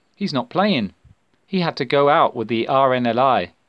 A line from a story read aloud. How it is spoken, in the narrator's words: Samantha replied calmly